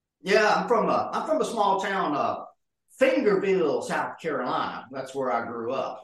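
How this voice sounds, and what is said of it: Southern American accent. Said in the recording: “you're a good old Southern boy ... that's where the accent come from”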